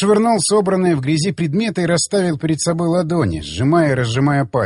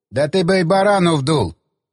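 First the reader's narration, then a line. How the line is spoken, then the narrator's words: Snort. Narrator (Russian): хмыкнул Засоль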